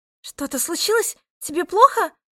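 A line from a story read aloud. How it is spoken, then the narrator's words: Worried question. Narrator (Russian): взволнованным голосом спросила Ника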